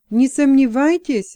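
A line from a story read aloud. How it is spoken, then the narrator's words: Exclaimed. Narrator (Russian): воскликнул Джексон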